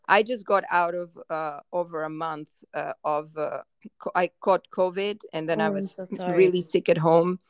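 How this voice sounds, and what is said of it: Shaky voice with coughing. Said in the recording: “I keep on maybe coughing, or my voice is a little bit shaky”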